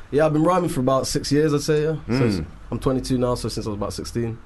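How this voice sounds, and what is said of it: Northern English accent. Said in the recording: “We got an accent in here. Sarah gets excited when she hears a northern accent”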